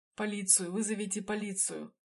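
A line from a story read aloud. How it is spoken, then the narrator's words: Wounded man groaning. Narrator (Russian): простонал раненый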